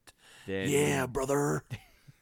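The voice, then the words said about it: Raspy breathy wrestler impression voice. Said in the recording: “Hulk Hogan's voice ... You really didn't sound like Hulk Hogan. You kind of sounded like Clint Eastwood doing a Hulk Hogan impression ... the whole breathy thing ... he's much more guttural. You had that, that raspy kind of Clint Eastwood, do you feel lucky punk kind of voice”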